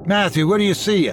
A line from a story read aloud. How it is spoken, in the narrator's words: I shouted